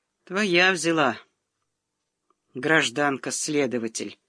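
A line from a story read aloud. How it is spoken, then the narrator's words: Sullen mutter. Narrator (Russian): угрюмо пробормотал Сидоров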